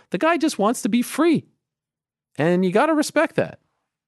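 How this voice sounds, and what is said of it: Voice rising to high pitch. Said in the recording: “I don't know why my voice is going so high there”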